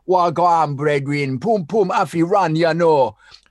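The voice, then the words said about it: Put-on Caribbean accent, sounding Welsh. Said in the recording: “has not done a Caribbean accent yet... I'm forcing him to do this one Caribbean style... Every accent I ever do is Welsh... you'll actually find it's Welsh”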